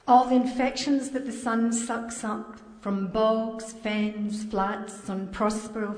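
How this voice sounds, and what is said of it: Strong Scottish accent. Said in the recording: “a Scottish accent ... Strong Scottish”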